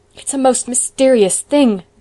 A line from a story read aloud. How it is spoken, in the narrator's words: groaned Marilla